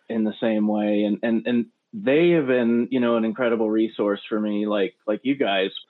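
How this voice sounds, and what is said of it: American accent. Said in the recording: “as an American ... my American accent”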